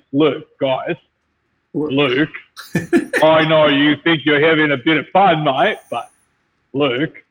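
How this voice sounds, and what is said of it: Exaggerated cartoonish Australian accent. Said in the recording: “my Australian impression ... Like it's a fucking cartoon.”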